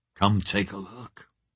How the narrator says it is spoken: I said softly

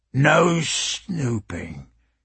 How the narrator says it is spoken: he growled

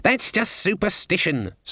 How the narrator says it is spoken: snapped Cleet

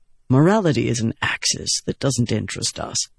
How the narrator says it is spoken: Moraes said calmly

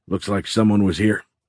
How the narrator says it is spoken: Dohai panted

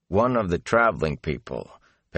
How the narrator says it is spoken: Perrin said blandly

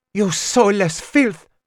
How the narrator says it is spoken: She spat at me

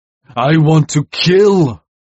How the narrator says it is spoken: he bellowed

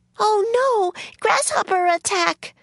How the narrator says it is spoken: screamed Kate

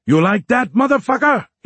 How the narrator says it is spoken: he yelled

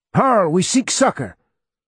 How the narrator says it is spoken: Jeff shouting

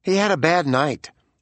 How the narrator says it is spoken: Kuhlman said tightly

